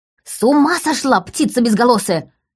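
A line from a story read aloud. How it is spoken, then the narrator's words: Agitated scream. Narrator (Russian): взволнованно завопила Лика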